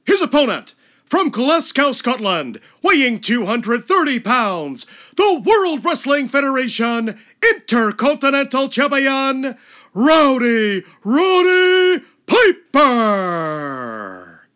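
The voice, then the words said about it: Very convincing wrestling ring announcer impression. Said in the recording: “one of the best Howard Finkel impersonations ... you close your eyes, you don't even know it's not Finkel. It's the very, very well done.”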